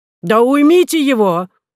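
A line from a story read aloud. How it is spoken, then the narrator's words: Shouted. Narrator (Russian): закричал профессор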